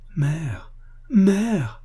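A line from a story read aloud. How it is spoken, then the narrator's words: Choked cry. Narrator (French): cria-t-il d'une voix étranglée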